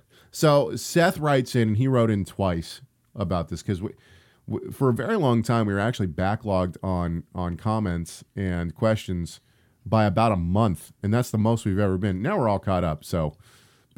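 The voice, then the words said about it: Sick, chesty voice. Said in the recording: “I've been sick, which is why my voice sounds the way it does ... I get a little chest thing, and I can do a movie voice”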